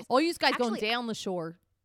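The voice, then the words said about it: Put-on Delaware County Philadelphia accent. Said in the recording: “I need to practice my Delco accent ... you got to get that Delco down ... Thank God I don't have that accent.”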